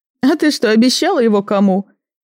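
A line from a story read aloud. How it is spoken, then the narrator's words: Chuckle over the phone. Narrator (Russian): хохотнула на том конце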